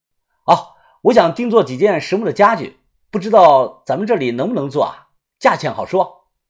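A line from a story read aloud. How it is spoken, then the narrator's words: Loud question. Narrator (Chinese): 一名正在割板材的这个工人大声的问我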